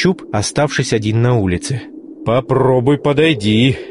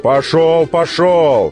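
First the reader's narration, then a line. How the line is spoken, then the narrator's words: Blacksmith shouting. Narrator (Russian): закричал кузнец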